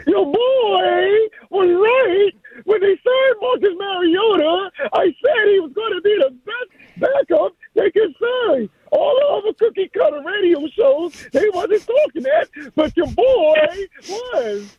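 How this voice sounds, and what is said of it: Impression of Rooster. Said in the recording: “my best rooster impersonation”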